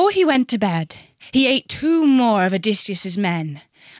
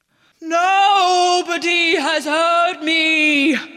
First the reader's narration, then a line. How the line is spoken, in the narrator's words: wailed the Cyclops